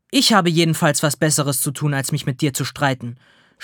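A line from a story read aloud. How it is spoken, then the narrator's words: Snapping back. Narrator (German): schnauzt die Verkäuferin zurück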